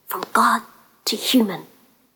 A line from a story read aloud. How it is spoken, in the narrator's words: she whispered